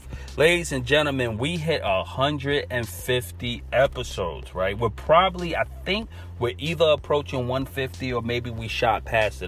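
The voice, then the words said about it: New York Brooklyn accent. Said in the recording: “I have a straight up New York accent. I'm trying to shake it. ... naturally I'm from Brooklyn and we all say earth. E A R F”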